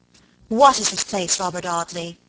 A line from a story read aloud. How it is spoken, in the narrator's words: she cried fiercely